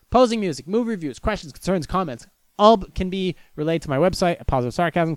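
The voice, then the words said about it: Very fast speech. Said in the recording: “I'm talking really fast”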